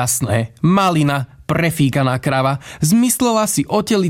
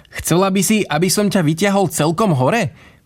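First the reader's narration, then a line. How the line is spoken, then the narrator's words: Joyful laughing. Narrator (Slovak): Iduška sa od radosti rozosmiala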